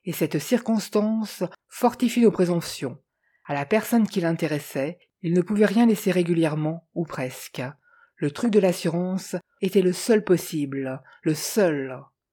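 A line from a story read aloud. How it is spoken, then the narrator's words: Sneering. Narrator (French): ricana-t-il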